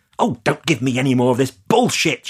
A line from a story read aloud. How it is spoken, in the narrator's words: she suddenly snapped